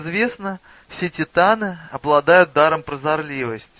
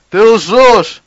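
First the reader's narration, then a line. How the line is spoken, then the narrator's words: Booming giant's voice. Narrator (Russian): прогремел титан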